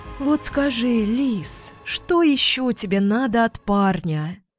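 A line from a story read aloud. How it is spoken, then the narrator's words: Sighing. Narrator (Russian): Вздохнула подруга Ира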